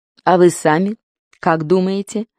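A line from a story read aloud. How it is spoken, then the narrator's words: Soft, evasive. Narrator (Russian): Пит мягко уклонился от ответа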